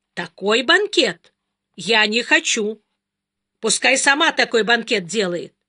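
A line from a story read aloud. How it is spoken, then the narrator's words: Indignant boy. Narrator (Russian): мальчик возмущенно сказал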